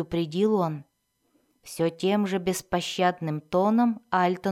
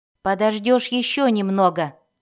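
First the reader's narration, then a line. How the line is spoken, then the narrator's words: Snapping retort. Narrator (Russian): огрызнулся Мозой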